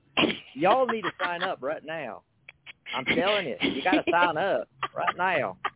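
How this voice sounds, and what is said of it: Put-on southern drawl. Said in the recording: “I'll slip into a southern drawl”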